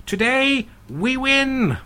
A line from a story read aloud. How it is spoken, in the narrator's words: he shouts above the tumult